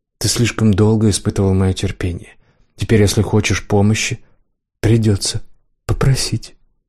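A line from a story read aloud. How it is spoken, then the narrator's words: Deceptively soft tone. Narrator (Russian): сказал обманчиво мягким тоном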